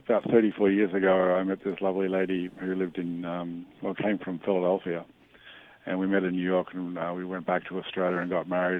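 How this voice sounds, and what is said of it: Australian accent. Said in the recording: “having an accent ... I love your accent ... I'm from Australia”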